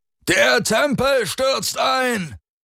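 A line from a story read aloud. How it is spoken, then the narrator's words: Bellowing. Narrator (German): brüllte Alrik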